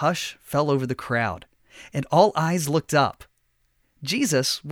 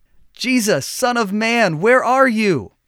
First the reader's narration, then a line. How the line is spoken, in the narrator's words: the fisherman shouted